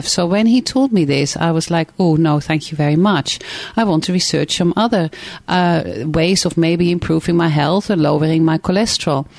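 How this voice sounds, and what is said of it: Dutch accent. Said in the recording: “because I'm Dutch, you probably detect an accent”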